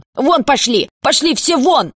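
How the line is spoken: Yelled. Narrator (Russian): заорала она

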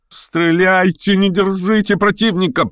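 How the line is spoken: Shouting, extremely agitated. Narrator (Russian): прокричал в чрезвычайном волнении Маврикий Николаевич

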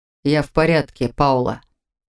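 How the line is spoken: Wry snort. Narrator (Russian): хмыкнул Виктор

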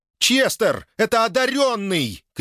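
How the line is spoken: Shout. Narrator (Russian): крикнула она

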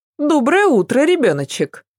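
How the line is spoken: Cheerful greeting. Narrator (Russian): Бодро приветствовала племянника Ася

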